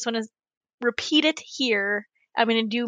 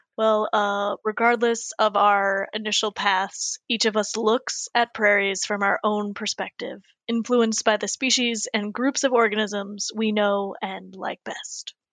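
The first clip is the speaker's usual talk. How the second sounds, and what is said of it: Imitates another person's voice. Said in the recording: “do my Chris Helzer voice”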